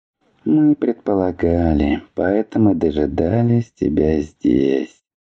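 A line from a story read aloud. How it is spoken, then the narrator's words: Sleepy reply. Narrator (Russian): ответил Ледор, сонно подтягиваясь и пожевывая травинку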